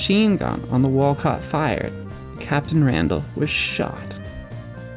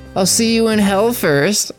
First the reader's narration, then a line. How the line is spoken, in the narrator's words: shouted back